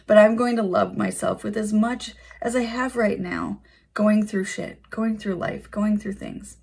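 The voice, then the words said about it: Strained, fading voice. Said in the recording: “losing my voice.”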